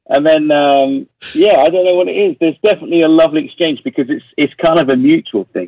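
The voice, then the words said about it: English accent. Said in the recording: “how come you speak with an English accent”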